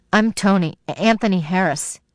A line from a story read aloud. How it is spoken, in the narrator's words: he said